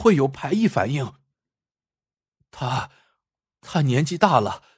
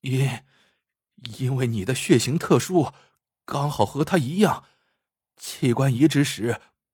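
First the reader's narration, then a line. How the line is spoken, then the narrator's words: Groaning, stammering. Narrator (Chinese): 王大夫呻吟着，结结巴巴的说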